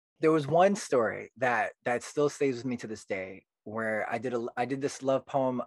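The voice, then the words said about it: British accent. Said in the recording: “That's a great British accent. ... the mainly two, you know, British accent people”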